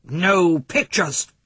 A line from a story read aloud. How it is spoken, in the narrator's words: he growled